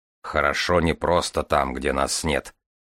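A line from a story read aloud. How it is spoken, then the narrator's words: Grumble. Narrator (Russian): проворчал Железовский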